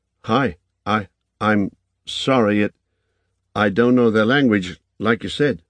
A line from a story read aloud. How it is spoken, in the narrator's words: said, in English, stammering